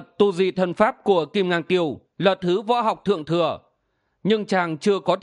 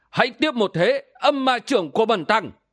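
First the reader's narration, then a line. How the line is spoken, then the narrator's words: Loud shout. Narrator (Vietnamese): Siêu Không Thượng Nhân quát lớn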